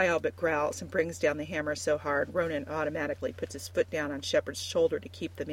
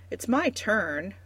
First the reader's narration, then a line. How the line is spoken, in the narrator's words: Marika protests, bouncing impatiently on Shepard's back